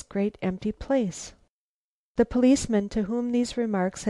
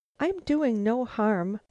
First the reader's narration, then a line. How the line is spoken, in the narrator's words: the woman protested in an odd, shaking voice